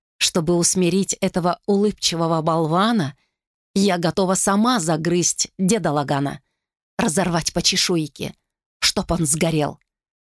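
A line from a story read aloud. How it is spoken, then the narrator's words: Through gritted teeth. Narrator (Russian): процедила та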